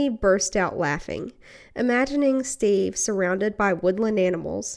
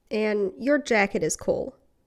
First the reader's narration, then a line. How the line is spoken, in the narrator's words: Steve continued over Eddie's laughter